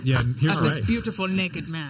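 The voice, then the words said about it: Put-on foreign accent. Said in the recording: “Whose accent was that? ... Kojima? ... He's European.”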